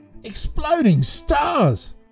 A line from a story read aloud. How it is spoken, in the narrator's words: screamed Curtis